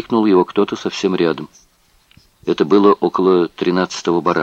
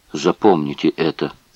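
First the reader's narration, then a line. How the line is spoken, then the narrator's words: Muttered. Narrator (Russian): пробормотал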